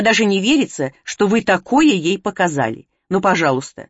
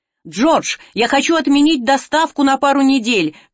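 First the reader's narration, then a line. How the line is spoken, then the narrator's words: Shouted over heads. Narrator (Russian): крикнула я через их головы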